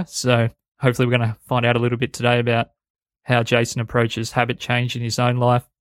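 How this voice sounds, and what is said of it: Hoarse, strained voice. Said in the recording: “I'm actually losing my voice a little bit”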